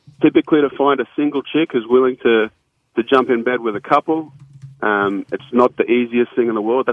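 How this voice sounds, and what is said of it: Australian accent. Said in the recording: “from where you're from in Australia ... I've got an accent”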